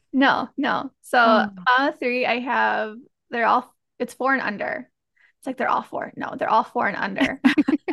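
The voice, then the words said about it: Slight Wisconsin accent. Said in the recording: “I am a mom of three out in Wisconsin. So for some of you, you'll probably hear a little bit of an accent”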